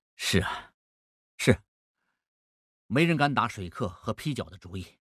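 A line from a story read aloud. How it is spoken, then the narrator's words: Smiling. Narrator (Chinese): 孟梅面含笑意说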